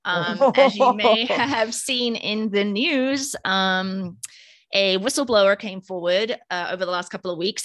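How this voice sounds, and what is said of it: Speaks with a noticeable accent. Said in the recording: “probably sounds hilarious with my accent”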